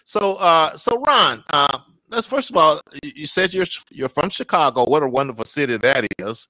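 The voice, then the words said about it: Mississippi accent. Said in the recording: “Mississippi background, Mississippi accent”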